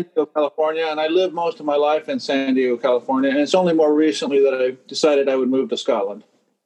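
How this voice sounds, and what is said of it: American accent. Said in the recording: “I do detect a very American accent there”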